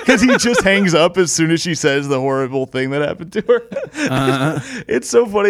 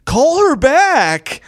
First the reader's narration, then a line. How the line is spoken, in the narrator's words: this lady in the audience yells